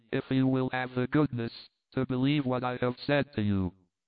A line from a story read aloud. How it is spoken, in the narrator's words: said, curtly